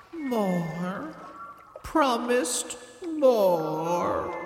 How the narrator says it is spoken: said sadly

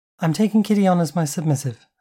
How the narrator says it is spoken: repeated, my cool quickly breaking into a grimace of insecurity

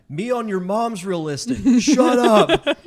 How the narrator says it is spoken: I yell back

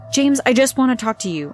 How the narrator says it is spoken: I blurted out quickly

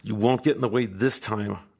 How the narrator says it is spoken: our host hisses out

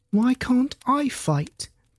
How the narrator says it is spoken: piped up Clover's young voice

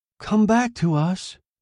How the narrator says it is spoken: they cried

